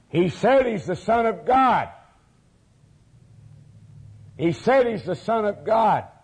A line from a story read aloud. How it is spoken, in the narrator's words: someone in the crowd of religious leaders spoke up and cried these words